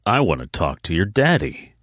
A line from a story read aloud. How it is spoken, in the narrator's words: he said in a cool voice